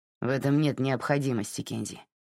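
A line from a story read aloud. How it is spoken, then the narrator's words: Grumble. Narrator (Russian): проворчал Тед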